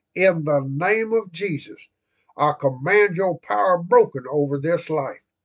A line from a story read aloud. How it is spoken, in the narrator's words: cried